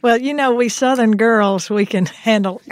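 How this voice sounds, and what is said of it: Exaggerated Southern American accent. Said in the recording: “I'm going to put on my most Southern accent now... I thought that was pretty Southern”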